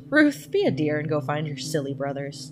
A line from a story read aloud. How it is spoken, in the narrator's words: Our mother laughed